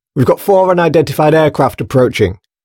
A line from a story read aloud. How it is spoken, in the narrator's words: Adams barked orders to his squad